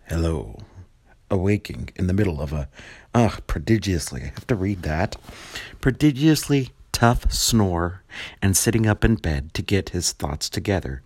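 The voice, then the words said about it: Put-on deep voice. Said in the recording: “This is my deep voice.”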